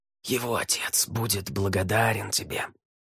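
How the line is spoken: Whispered. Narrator (Russian): прошептал Ель

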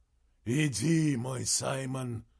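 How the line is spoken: Fervent breathless exclamation. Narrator (Russian): выдохнул он, и его голос был полон пламени

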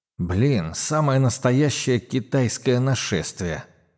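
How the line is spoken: Muttering. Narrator (Russian): пробормотал

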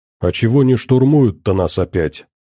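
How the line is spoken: Plain. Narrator (Russian): спросил он

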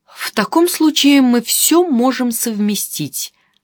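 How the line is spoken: Joyful exclamation. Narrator (Russian): радостно воскликнул господин Гулаген

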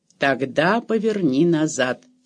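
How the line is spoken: Calm. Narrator (Russian): спокойно сказал граф

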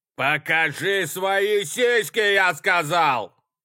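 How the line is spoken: Yelled. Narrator (Russian): заорал Нэш

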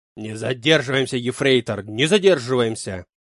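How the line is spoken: Angry bark. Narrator (Russian): Зло гаркнул Клаус Мария

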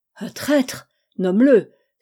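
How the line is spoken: Exclaiming, conflicting emotions. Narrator (French): s'écria Outougamiz d'une voix où mille sentiments contraires avaient mêlé leurs accents

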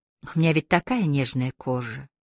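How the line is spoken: Languid drawl. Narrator (Russian): Томно протянула красотка

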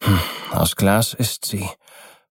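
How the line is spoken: Man replying with heavy sigh. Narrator (German): versetzte der Mann und seufzte dabei schwerer denn je

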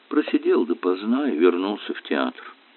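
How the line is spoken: Calm, casual. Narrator (Russian): Линкольн спокойно, как ни в чем не бывало, добавил

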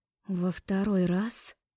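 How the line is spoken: Sudden angry hiss. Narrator (Russian): Неожиданно зашипела змеёй, разозлившись

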